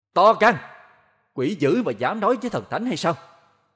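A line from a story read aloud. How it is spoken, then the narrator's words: Loud shout. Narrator (Vietnamese): hét lớn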